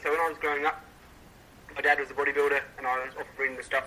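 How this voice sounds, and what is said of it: Australian accent. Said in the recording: “another Australian KSI coach. Despite his accent.”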